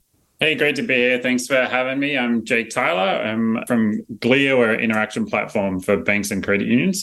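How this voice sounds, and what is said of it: Australian accent. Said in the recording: “I got a little bit of an accent. I'm from Australia originally.”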